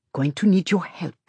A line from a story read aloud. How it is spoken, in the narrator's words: she says softly